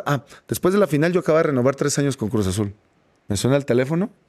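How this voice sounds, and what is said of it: Usual voice. Nothing is said of it.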